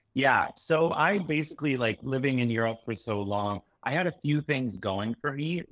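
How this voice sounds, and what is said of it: Neutral Canadian accent. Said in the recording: “I had a Canadian accent, which is very neutral”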